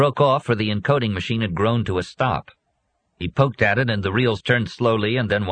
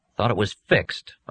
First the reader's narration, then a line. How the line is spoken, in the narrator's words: thought angrily